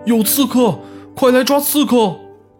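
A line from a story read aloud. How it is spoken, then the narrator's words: Startled shout. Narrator (Chinese): 国王脖子一凉，不禁大喊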